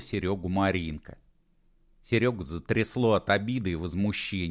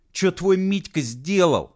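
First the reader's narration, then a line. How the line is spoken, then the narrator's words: Barked. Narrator (Russian): рявкнул он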